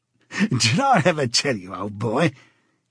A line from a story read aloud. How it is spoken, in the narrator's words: said, chuckling round the stem of his pipe